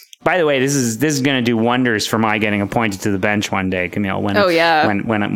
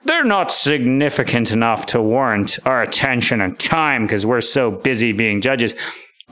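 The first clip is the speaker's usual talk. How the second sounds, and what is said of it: Mock pompous judge voice. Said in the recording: “my imitations ... a composite of all the judges who've ruled in these areas. That was no particular judge I was imitating.”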